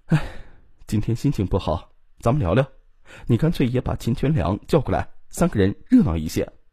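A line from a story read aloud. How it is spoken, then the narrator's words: Sighing. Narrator (Chinese): 王淑仪一见李东营，便叹了口气说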